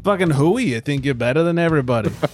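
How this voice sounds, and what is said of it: Angry put-on Boston accent. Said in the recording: “Angrily ... all Boston / East Coast accent episode ... You think ours is any good?”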